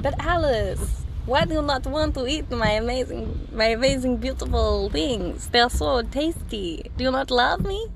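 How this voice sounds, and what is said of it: Weird put-on Italian voice. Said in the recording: “why are you doing that weird Italian voice? ... is that Italian?”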